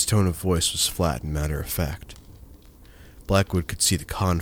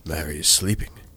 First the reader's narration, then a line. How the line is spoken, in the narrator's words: the innkeeper replied, hoarsely